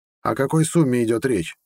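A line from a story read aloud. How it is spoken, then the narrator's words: Calm question. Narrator (Russian): спокойно спросил тот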